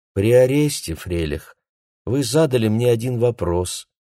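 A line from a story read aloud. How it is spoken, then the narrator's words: Courteous tone. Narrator (Russian): сказал он любезным тоном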